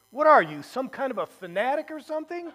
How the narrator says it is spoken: Lucy indignantly says

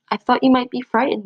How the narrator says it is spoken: Little Mouse said

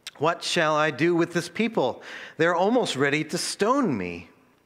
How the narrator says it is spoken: Moses cried to the Lord

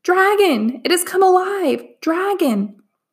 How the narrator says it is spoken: I heard him gasp

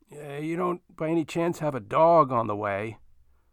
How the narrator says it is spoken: sighed

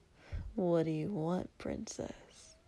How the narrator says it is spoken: he said quietly

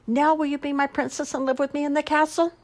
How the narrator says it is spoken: he cried

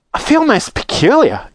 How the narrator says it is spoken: gasped Violet

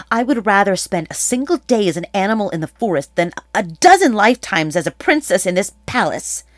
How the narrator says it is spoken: Atalanta spat out

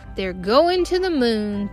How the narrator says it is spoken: Theo shouted

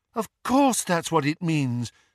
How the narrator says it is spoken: said Luna brightly

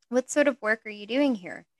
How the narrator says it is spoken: she asked

